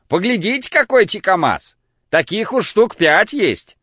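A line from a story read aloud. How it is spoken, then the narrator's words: Shouting. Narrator (Russian): кричал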